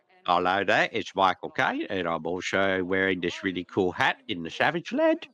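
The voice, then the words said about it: Mixed put-on accents, imitates another person's voice. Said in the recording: “He's a little Michael Caine as well. ... I feel like he's kind of trying to mix like four different accents all at once with that voice.”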